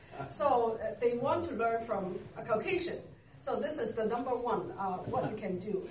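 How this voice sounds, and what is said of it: Non-native English accent. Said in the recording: “I'm still not Canadian. I still have my accent.”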